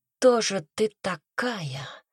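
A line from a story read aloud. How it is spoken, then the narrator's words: Whisper into darkness. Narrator (Russian): прошептал он в темноту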